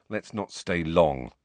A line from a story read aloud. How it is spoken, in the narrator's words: Ron said quietly